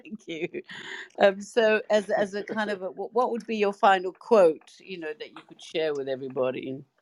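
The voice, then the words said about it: Speaks with a noticeable accent. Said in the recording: “hearing that accent all the time”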